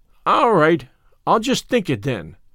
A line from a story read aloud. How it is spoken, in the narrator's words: said Davy cheerfully